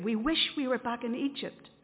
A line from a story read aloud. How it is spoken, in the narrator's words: they said